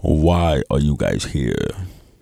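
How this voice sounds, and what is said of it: Deep, clear voice. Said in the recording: “in a deep voice, in a deep, clear voice”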